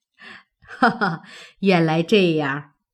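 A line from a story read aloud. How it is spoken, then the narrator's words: Laughing. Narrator (Chinese): 贾母听了，笑道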